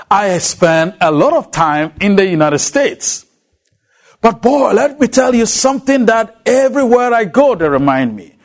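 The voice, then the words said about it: African accent. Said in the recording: “I am a native African... That has not changed my accent a bit.”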